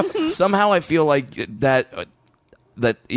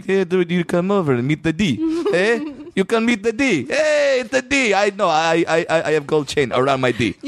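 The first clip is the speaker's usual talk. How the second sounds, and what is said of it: Put-on Armenian accent. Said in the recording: “if you had an Armenian accent, that might actually work”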